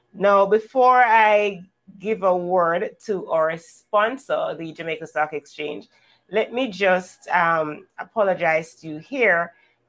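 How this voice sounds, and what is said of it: Hoarse voice. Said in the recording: “if I'm sounding kind of a hoarse, it's because, yes, I'm trying to fight the flu”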